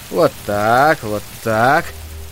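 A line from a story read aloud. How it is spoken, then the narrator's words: Tense muttering. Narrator (Russian): напряженно бормотал Айзек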